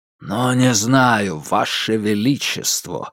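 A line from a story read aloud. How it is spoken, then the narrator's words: Grumbled. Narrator (Russian): буркнул Герман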